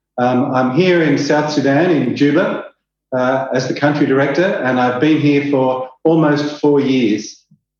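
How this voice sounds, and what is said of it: Australian accent. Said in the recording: “I'm an Australian. You might pick that up from my strange accent.”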